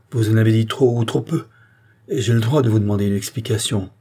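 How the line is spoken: Exclaiming. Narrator (French): s'écria-t-il

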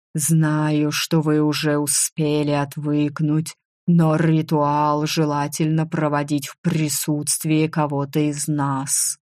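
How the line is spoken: Purring voice in head. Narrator (Russian): раздалось в моей голове мурлыкающее

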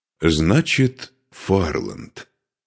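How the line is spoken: Calm. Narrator (Russian): спокойно произнес Духарев

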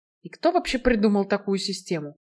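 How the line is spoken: Grumbling. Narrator (Russian): проворчала Альда

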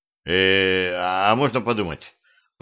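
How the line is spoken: Mumbled. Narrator (Russian): промямлил

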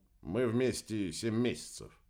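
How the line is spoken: Grumbled. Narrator (Russian): буркнул Игорь

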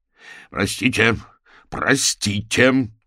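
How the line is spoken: Almost threatening shout. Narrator (Russian): крикнул Фрэнк почти угрожающим тоном

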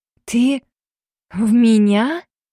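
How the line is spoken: Stunned breathless exhale. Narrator (Russian): ошарашенно выдохнула я

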